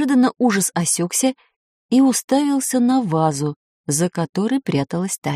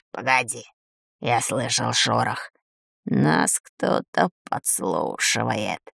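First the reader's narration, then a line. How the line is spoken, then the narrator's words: Hoarse. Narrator (Russian): хрипло сказал он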